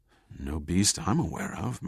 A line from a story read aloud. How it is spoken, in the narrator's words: murmured Ellis in awe